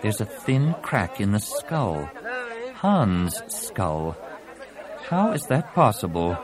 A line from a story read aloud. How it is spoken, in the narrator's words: she marveled in a distracted tone